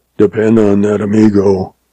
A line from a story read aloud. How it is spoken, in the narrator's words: Gil told him hoarsely